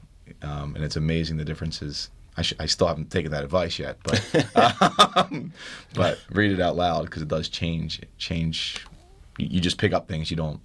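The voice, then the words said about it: Philadelphia accent. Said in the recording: “you said I had to get rid of my Philly accent”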